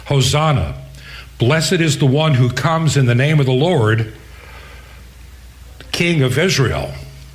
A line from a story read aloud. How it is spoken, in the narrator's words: shouting